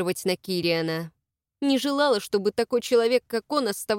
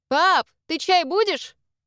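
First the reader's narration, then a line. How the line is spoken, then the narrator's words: Shout. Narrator (Russian): крикнула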